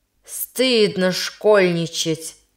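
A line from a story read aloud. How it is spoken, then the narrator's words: Stern. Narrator (Russian): произнес он строго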